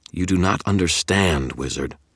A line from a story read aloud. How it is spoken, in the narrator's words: Tara snarled